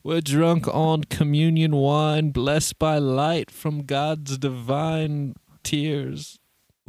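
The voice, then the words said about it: Put-on accent. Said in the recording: “Where is this accent going?”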